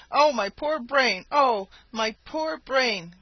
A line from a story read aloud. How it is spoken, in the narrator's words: cried the jackal